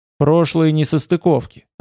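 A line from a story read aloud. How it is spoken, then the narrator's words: Plain. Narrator (Russian): ответил я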